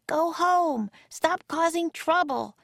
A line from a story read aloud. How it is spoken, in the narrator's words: she yelled to the Vikings